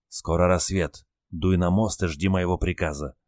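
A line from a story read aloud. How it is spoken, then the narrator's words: Whispering sailor. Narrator (Russian): шепнул моряк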